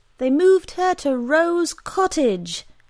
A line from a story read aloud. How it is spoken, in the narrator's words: Emily shouted in explanation